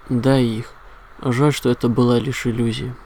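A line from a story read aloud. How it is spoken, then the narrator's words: Sigh. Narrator (Russian): вздохнул Лис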